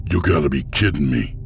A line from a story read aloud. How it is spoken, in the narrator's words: Boswick snapped